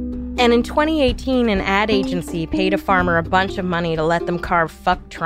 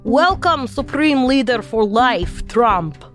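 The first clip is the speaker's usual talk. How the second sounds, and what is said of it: Put-on Russian accent. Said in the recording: “That's my Russian accent.”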